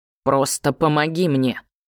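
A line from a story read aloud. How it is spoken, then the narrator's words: Firm. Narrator (Russian): Кирьян … твердо сказал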